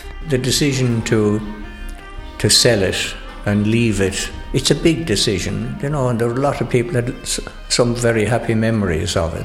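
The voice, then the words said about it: Irish Tipperary accent. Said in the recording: “I'm Tipperary. I'm a Tipperary man. ... I knew you had an accent. I knew it wasn't a Carlow accent.”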